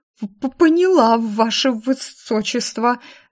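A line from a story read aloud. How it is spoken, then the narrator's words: Stammering, frightened woman. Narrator (Russian): заикаясь, бледная, как мел женщина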